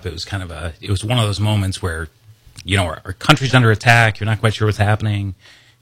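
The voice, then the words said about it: Choked up, emotional voice. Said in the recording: “I'm kind of getting a little choked up.”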